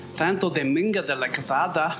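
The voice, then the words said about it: Cartoonish put-on Spanish accent. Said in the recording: “doing a kind of cartoonish accent”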